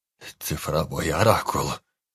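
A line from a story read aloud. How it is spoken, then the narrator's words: Hoarse, trembling voice. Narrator (Russian): хрипло произнес Анджей, которого била мелкая дрожь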